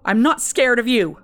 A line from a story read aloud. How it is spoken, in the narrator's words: shouted to the emptiness